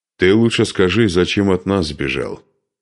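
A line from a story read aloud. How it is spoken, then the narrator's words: Plain. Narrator (Russian): спросил его Духарев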